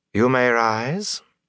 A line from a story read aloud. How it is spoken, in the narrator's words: Morgaze said in a rich, warm voice that held Elaine's assurance of obedience 100 times over